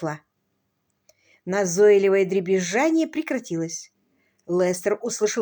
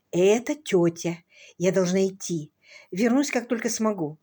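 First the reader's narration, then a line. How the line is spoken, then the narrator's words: Whispered. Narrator (Russian): Розамунд шепотом сказала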